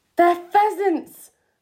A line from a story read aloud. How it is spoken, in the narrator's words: I cried